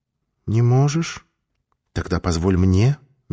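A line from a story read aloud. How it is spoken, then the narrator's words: Soft whisper. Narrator (Russian): мягко прошептала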